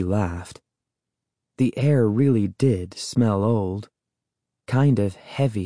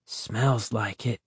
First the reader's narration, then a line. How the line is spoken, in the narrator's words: I whispered to Sari